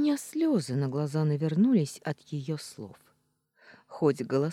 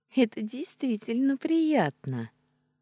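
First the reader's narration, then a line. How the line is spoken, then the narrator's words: Laughing. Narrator (Russian): рассмеялась она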